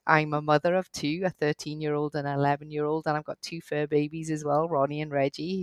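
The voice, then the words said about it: Hybrid Scottish and Welsh accent. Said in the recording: “I grew up in Wales, in Cardiff ... I did my law degree in Scotland, hence the accent, hybrid accent.”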